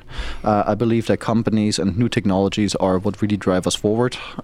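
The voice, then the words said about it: Non-American, German-tinged accent. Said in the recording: “you may hear it from my accent, I'm not from the U.S. originally ... I was born in Germany, raised in Germany”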